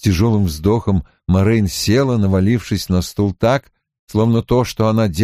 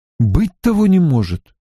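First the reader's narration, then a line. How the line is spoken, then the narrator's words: Exclaiming. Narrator (Russian): воскликнул Ранд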